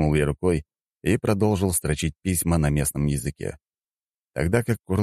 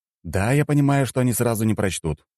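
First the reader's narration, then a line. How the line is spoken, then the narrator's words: Exclaiming. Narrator (Russian): воскликнул я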